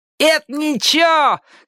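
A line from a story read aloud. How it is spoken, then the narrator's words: Shouted. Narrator (Russian): крикнул Джонни О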